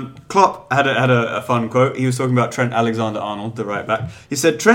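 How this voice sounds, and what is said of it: Usual voice. Nothing is said of it.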